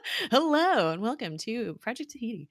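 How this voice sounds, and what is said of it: Game show host voice. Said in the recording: “I kind of feel like I'm talking like a game show host”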